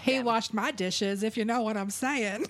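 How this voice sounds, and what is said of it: Put-on 1920s-style accent. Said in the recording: “That's my 20s accent.”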